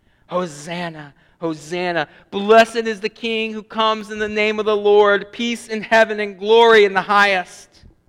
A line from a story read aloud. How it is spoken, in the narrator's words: The mountains were shouting